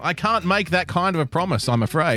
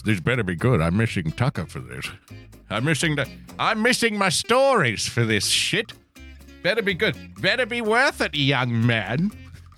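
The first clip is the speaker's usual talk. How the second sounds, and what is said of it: Old man voice. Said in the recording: “in an old guy voice.”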